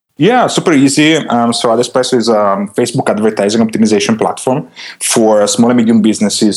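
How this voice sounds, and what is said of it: Foreign accent, radio-style voice. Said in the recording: “You have a radio voice. You have the accent,”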